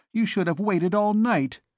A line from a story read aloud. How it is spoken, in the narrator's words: she said angrily